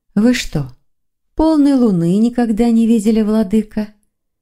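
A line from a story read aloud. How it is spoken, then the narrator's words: Sighing. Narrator (Russian): Виктор вздохнул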